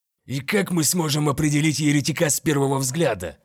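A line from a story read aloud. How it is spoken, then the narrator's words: Grumbling. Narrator (Russian): проворчал Альвада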